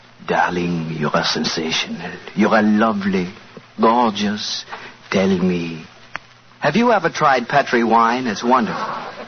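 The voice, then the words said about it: Whispered fake French accent. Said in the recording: “whispering in my fine French accent”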